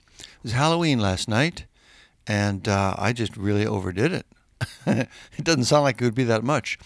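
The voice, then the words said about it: Tired-sounding voice. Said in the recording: “Oh man, I'm tired this morning. You can hear it in my voice.”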